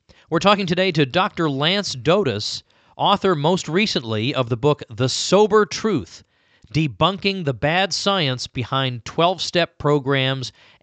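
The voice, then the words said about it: Not fully recovered voice. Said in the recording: “my voice is still not fully recovered, but good enough to be understood anyway”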